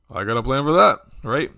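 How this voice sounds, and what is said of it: Imitates another person's voice. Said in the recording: “my best Bernie Sanders impersonation. That might sound more like Fred Flintstone.”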